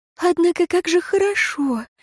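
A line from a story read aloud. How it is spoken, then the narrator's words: Tender sigh. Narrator (Russian): умиленно вздохнула Лейра Лайнитта Роэн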